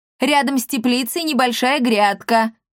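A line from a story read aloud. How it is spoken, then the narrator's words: Calling out after someone. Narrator (Russian): крикнула ей вдогонку Сцилла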